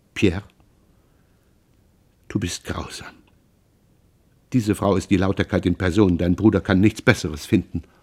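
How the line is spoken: Trembling agitated whisper. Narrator (German): Sie flüsterte leise, zitternd vor Erregung

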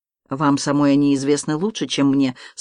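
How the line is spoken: Calm reply. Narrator (Russian): спокойно ответил видок

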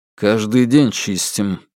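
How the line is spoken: Through gritted teeth. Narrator (Russian): процедил Алексей

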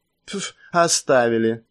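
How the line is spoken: Cheerful snort, laughing. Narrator (Russian): весело фыркнул Вуджоу, рассмеявшись

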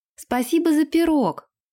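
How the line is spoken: Shouting after someone. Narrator (Russian): крикнула она в спину старухе

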